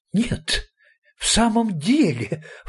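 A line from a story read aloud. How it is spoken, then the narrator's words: Delighted exclamation. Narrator (Russian): воскликнул откровенно обрадовавшийся господин Марабу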